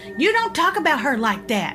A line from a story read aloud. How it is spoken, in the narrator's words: she shouted back